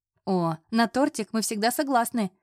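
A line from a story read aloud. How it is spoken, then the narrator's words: Laughing. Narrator (Russian): засмеялась Вера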